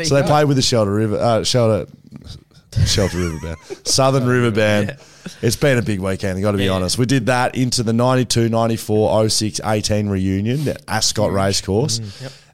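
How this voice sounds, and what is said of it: Tired, fatigued voice. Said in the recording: “my voice is a little bit fatigued ... It's come back since this morning a little bit.”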